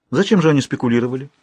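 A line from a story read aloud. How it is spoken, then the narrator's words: Calm question. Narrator (Russian): спокойно спросила она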